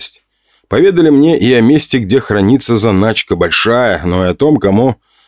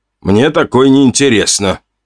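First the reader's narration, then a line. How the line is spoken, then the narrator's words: Scoffing snort. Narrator (Russian): хмыкнул Костя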